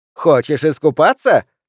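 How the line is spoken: Distant shout from behind. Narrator (Russian): закричала Ханна где-то сзади

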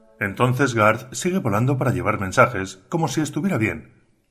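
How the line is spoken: Worried voice. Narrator (Spanish): dijo con voz preocupada

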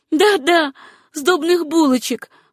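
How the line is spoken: Joyful chiming in. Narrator (Russian): радостно подхватила Сюзанна

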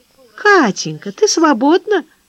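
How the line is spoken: Honeyed sweet asking. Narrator (Russian): медовым голосом спрашивала мама

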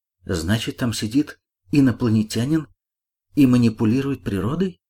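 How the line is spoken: Plain. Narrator (Russian): сказала Ольга

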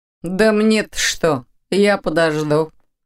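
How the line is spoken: Chuckling. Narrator (Russian): хохотнул тот

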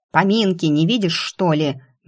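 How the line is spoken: Demonic growl. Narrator (Russian): истинно по-демонски рыкнула Кара

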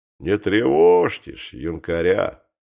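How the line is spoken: Calm coachman. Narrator (Russian): спокойно говорит ямщик

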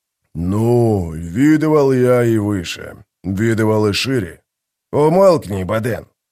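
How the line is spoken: Grumbling. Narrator (Russian): буркнул Гиборик

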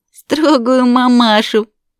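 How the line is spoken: Daughter laughing. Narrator (Russian): засмеялась дочь

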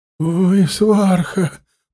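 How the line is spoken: Moaning. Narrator (Russian): простонал блюститель престола

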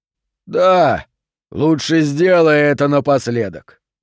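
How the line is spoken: Smirking grunt. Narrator (Russian): хмыкнул Малох

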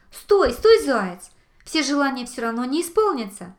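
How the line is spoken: Shouting young fox. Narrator (Russian): закричал лисенок

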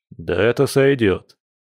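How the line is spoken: Snort. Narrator (Russian): хмыкнул Борис

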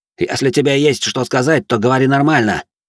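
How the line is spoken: Snapped. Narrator (Russian): огрызнулся Стриж

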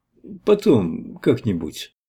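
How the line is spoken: Dejected. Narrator (Russian): сказал он уныло

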